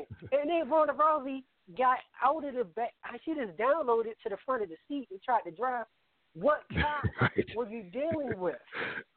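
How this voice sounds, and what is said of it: Baltimore accent. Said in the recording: “my Baltimore accent”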